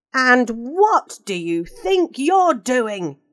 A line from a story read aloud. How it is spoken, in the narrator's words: roared